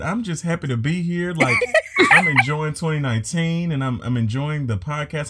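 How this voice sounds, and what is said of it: Smiling, happy-sounding voice. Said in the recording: “if y'all can't tell by my voice, I'm smiling”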